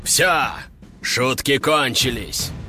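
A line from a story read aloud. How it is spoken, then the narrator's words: Deep bass voice. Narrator (Russian): пробасил демон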